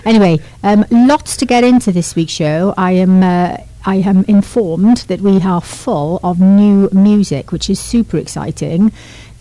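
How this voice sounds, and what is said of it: Posh-sounding speech. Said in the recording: “speaking so posh”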